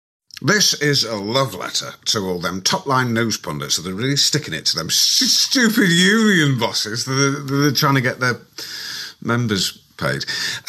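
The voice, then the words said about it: Alan Partridge impression. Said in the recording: “He's doing these kind of Coogan Partridge impressions ... Is this a good impression?”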